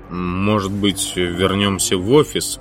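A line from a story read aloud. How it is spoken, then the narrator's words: Grumbling. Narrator (Russian): проворчал Макьюра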